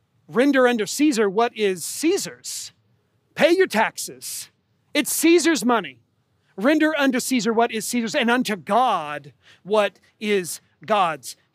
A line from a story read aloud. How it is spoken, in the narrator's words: he says